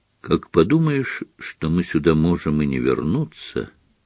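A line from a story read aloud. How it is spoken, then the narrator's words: Quiet. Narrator (Russian): тихо сказала она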